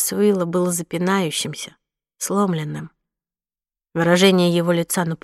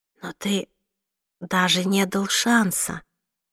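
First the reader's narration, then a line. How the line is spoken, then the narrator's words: Whispered. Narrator (Russian): прошептала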